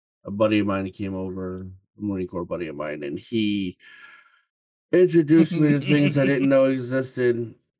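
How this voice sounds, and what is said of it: Rough, worn-out voice. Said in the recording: “I sound like a train wreck.”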